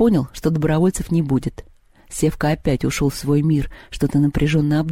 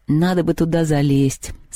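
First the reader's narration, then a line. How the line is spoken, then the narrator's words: Sigh, then speaking. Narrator (Russian): вздохнул и сказал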